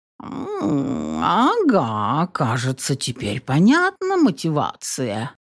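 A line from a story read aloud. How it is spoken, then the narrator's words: Cat purring, favorably. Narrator (Russian): промурлыкал кот уже вполне благосклонно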